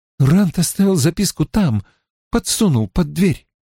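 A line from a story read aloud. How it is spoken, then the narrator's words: Tense voice. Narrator (Russian): сказала Мин напряженным голосом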